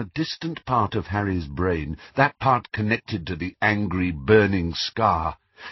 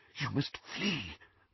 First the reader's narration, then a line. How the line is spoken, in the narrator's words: whispered Professor McGonagall